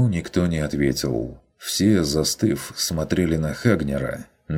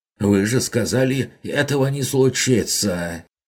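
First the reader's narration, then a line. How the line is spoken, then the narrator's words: Hoarse shout. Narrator (Russian): Сипло выкрикнул он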